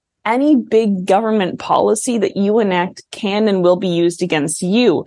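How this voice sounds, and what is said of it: Usual voice. Nothing is said of it.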